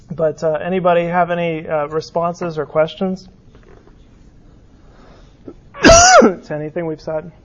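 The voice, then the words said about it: Hoarse, fading voice. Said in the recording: “I'm having a coughing fit ... I'm losing my voice”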